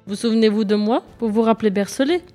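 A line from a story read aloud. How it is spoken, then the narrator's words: Plain. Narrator (French): dit-il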